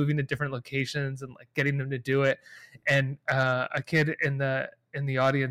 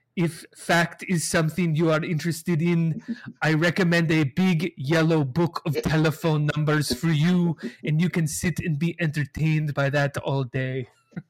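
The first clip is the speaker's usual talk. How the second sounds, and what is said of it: Imitates another person's voice. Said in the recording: “That's a good impersonation”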